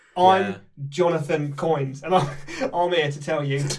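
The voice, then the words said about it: Put-on character accent. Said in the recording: “I've switched now to a different accent”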